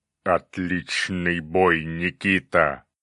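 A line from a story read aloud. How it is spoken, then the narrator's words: Cyclops growling. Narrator (Russian): прорычал циклоп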